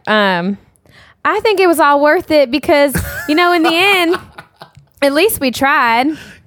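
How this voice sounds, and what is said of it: Good impression of Tia's accent. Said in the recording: “Do the T accent... You do a good Tia.”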